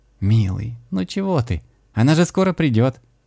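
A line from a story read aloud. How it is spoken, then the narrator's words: Tender, smiling. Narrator (Russian): Ласково улыбнулась домовиня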